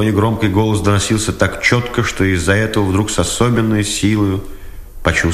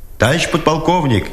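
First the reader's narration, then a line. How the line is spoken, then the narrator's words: Shouted. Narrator (Russian): издри крикнул Дудкин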